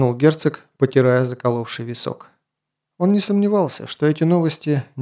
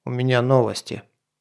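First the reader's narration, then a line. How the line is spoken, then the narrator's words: Gloomy announcement. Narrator (Russian): мрачно сообщил посланец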